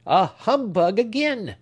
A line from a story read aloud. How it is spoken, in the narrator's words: cried the old gentleman, growing more and more testy